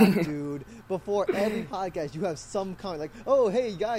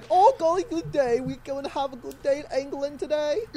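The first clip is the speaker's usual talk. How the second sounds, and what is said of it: Very poor put-on English accent. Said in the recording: “That was one of the worst accents I've ever heard. ... That's your accent?”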